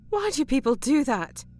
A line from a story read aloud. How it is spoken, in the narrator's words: Kim exclaimed